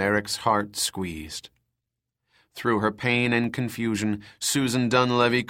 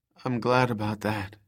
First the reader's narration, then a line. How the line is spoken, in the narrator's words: she replied